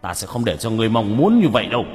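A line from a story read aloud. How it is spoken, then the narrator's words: Shout from afar. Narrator (Vietnamese): Hải Xoa ở bên kia quát lên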